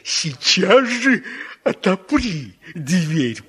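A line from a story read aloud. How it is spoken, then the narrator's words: Growled. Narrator (Russian): прорычал опять волк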